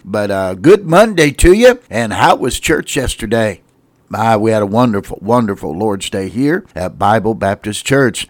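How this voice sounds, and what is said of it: Unwell, impaired-sounding voice. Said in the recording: “I apologize for my voice today. Not sure what's going on. I think it's just allergies and such that I'm fighting.”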